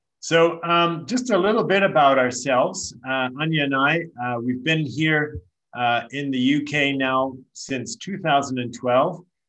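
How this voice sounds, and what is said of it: Canadian English accent. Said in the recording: “we still haven't put on the old English accent yet. We're keeping our Canadian accent”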